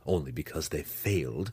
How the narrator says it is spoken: Zack whispered to Drizzt

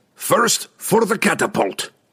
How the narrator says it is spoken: the dwarf cried in rage

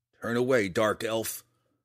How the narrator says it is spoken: Connor growled

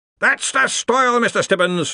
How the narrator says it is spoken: the Arch-Chancellor roared

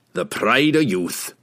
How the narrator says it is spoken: Brunner grumbled

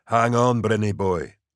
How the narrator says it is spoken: Bragg said softly

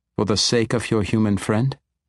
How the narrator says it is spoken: sarcastic remark

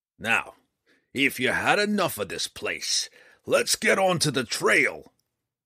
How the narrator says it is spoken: Roddy boomed

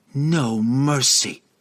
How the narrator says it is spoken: Catterby growled through clenched teeth

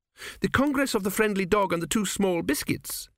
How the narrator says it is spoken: she exclaimed

